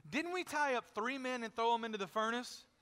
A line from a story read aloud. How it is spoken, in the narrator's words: Nebuchadnezzar in amazement, exclaimed to his advisors